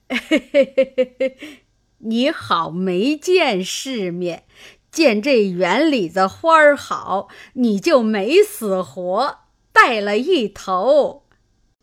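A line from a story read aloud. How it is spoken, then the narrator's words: Laughing old woman. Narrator (Chinese): 刘姥姥笑道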